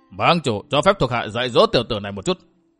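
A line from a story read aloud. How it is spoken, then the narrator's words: Exasperated angry shout. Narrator (Vietnamese): Hoàng Hưng chủ không sao chịu nổi, quát luôn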